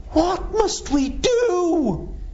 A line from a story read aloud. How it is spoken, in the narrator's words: begged, even though they knew that would mean their whole lives being changed